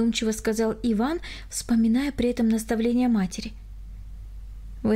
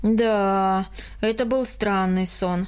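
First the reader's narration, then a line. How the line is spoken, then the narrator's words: Sighing. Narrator (Russian): вздохнул Карл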